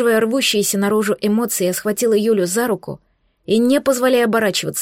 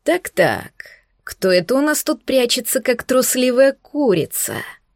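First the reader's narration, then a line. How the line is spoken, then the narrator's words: Mocking drawl. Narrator (Russian): Насмешливо протянул психопат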